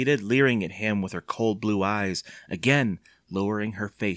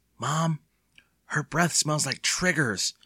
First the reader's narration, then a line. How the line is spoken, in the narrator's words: Evan exclaimed miserably